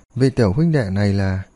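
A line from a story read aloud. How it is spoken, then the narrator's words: Smiling question. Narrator (Vietnamese): mỉm cười hỏi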